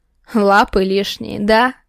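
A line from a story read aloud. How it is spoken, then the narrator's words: Menacing growl. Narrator (Russian): Такого грозного рычания от Архарова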